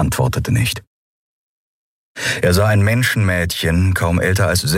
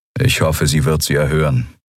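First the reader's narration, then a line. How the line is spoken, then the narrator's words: Toneless voice. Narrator (German): sagte Telios mit tonloser Stimme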